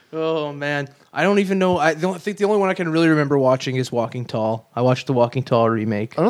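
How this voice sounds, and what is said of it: Usual voice. Nothing is said of it.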